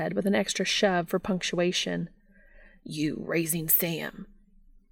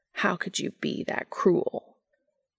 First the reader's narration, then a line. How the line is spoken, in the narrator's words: Cass sighed in disgust